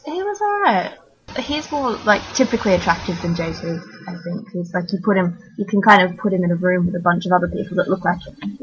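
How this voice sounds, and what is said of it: Australian accent. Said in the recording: “Australian based on your accent”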